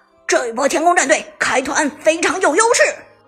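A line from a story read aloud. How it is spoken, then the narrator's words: Excited shouting. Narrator (Chinese): 子豪激动喊道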